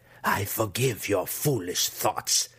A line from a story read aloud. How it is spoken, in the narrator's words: she growled